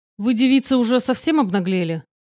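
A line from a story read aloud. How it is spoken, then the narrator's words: Spat out angrily. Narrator (Russian): злобно выплюнул 2-й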